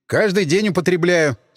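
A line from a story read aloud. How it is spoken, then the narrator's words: Grumpy snap. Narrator (Russian): сварливо огрызнулся я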